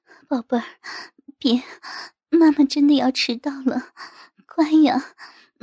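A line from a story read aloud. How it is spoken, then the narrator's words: Breathy, coquettish. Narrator (Chinese): 妈妈娇吟着，娇喘着说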